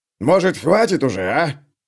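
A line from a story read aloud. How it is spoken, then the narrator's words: Bellowed. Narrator (Russian): гаркнул на него Клевер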